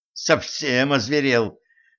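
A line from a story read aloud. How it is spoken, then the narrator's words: Angry. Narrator (Russian): злилась Женька в адрес Кощея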